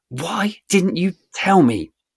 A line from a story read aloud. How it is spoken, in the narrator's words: someone snarls